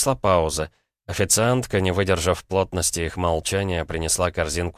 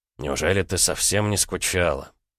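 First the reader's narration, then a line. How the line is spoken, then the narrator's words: Quiet question. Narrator (Russian): тихо спросил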